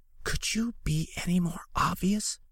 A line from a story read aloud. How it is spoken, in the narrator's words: Marcus hissed